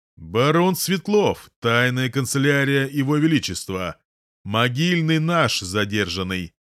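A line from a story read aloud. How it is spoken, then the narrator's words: Loud laughter. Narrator (Russian): Холод громко хохочет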